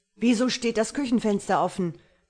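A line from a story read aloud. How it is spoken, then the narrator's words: Roared. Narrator (German): brüllte Marlow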